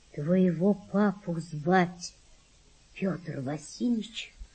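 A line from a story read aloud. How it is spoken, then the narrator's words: Quiet mother. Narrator (Russian): сказала мать Валентины тихо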